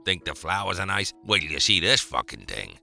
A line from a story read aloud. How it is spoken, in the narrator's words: growled